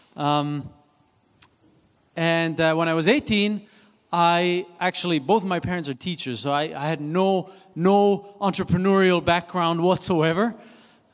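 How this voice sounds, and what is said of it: Slight Swiss accent. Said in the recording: “I was born and raised in Switzerland, so this is why I have a little bit of an accent.”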